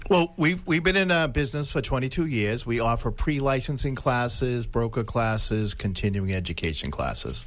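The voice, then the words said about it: Boston Dorchester accent. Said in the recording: “You're going to know I'm a Dorchester guy with my accent here.”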